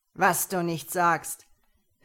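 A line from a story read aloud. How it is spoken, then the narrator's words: Mocking leader. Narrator (German): höhnte der Anführer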